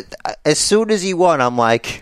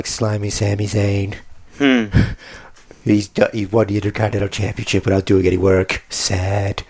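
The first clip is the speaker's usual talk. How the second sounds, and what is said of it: Imitates another person's voice. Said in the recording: “I got to do my best impression of the Commander in Chief”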